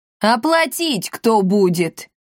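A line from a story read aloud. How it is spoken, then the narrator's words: Roared in unison. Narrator (Russian): взревели в один голос папаша и мамаша Готье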